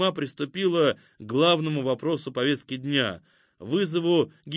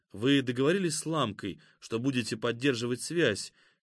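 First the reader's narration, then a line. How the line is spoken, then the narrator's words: Quiet question. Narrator (Russian): негромко спросил Игнат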